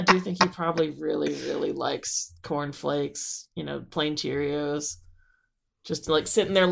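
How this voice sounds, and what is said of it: Usual voice. Nothing is said of it.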